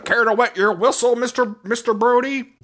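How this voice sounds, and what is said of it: Imitates a bad American accent. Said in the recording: “American accent is so fucking funny. Even he says it's bad. ... I did the worst American accent”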